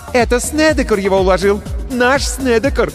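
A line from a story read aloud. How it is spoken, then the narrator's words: Joyful shout. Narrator (Russian): радостно закричала Лили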